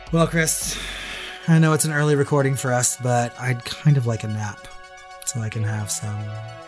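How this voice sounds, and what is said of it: Raspy, hoarse voice. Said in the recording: “my voice is cleared up a little bit... So that sounds so raspy.”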